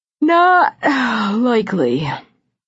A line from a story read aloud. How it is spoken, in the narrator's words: he said sleepily